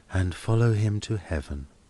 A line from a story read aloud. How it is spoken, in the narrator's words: murmured Helena